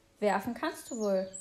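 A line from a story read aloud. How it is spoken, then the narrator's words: Plain, giant speaker. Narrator (German): sagte der Riese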